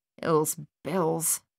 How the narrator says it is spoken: Thaddeus mumbled

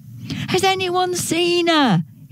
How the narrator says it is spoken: shouted

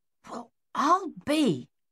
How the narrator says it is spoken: Captain Egan muttered

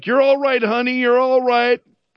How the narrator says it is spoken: a woman shouting back

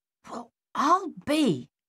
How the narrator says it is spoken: Captain Egan muttered

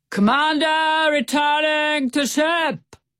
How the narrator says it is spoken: He roared so loudly

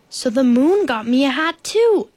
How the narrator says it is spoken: exclaimed Bear

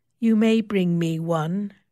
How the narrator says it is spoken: says coldly

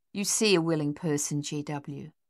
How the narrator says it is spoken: Lily said softly

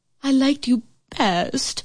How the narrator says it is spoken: whined the queen

